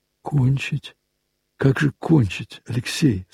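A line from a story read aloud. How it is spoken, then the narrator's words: Quiet. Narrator (Russian): сказала она тихо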